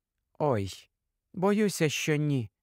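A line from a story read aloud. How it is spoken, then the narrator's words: Gentle disagreement. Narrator (Ukrainian): лагідно заперечила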